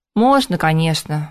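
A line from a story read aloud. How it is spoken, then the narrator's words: Sighing. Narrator (Russian): вздохнул Макс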